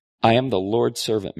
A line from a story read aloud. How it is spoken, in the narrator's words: Mary answered